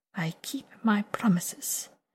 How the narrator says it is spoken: Viago says softly

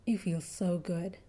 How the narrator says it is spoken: she murmured

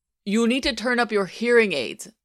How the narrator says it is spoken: said Rozanov even more loudly

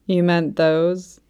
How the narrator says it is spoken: Quan Chian threw back his head and laughed

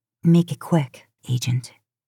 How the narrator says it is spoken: she whispers

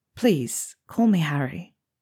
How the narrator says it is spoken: Harry said softly

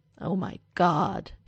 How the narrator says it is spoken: Derek groans, and it's less a fun groan than exasperation

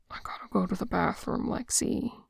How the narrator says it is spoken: he whispers

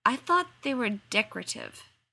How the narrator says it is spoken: Sam faltered

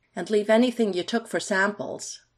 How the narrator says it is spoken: Michael called out, enunciating clearly

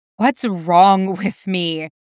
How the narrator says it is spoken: Jason gasps again

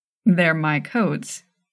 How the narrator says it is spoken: he said

